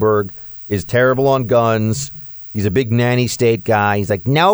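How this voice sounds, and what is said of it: Usual voice. Nothing is said of it.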